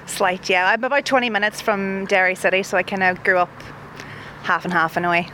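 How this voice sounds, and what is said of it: Donegal accent, slightly Derry. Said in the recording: “a Donegal accent that's, uh, you know, a little bit Derry, a little bit of Derry there”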